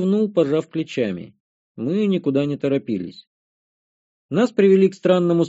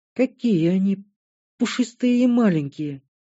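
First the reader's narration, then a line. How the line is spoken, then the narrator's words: Admiring coo. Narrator (Russian): Восхищенно проворковала Шантри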